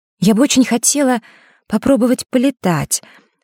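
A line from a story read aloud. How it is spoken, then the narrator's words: Timid. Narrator (Russian): робко произнесла Василиса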